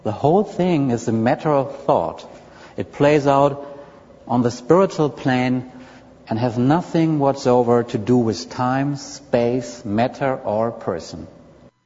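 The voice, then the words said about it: Indian German-sounding accent. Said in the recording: “it's like an Indian German accent”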